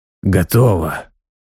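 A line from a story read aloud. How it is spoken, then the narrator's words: Tired. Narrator (Russian): сказал он устало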